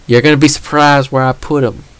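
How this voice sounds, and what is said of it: Put-on Southern US accent. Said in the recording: “I don't know why I did a southern accent there.”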